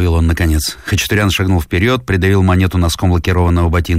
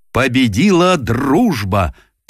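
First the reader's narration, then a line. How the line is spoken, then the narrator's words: Solemn shout. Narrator (Russian): торжественно выкрикнул он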